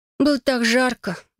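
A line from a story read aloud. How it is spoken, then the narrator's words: Sighing. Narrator (Russian): вздохнула я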